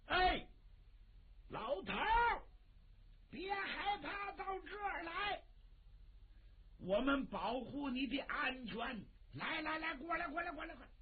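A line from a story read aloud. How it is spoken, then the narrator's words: Called out. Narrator (Chinese): 傅春宝喊了一声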